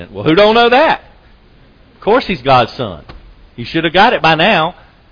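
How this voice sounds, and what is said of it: Put-on strong Southern accent. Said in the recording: “in a real southern accent”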